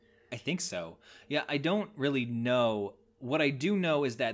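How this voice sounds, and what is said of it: Usual voice. Nothing is said of it.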